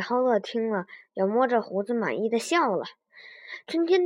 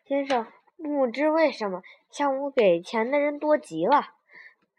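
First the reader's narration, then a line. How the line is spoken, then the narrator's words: Smiling old man. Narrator (Chinese): 老人笑着对诗人说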